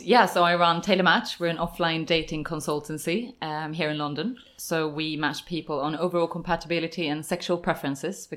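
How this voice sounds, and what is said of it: Swedish accent. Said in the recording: “what is that accent? Where are you from? ... I'm from Sweden. ... It's a very nice accent.”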